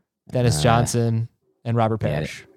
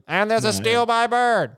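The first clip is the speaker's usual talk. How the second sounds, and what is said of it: Impression of famous basketball announcer call. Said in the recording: “I think that was a pretty good impression”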